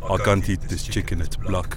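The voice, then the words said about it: Poor put-on South African accent. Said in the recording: “What kind of accent was that, bro? That was terrible. ... Was that terrible, South African?”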